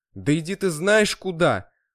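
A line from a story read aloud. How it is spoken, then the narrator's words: Loud shout. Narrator (Russian): выкрикнул на всю квартиру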